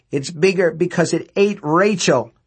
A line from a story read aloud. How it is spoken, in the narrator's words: Laverne cried and began to scream again